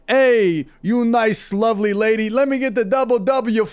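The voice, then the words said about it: Exaggerated gangster character accent. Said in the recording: “a modern day gangster who has to be like very PC ... you do it in that accent ... If you really lean into it.”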